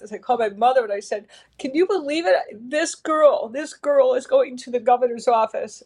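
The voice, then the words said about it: Teary, emotional, voice close to crying. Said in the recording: “going to get teary-eyed when I think about this ... I'm sorry for getting emotional”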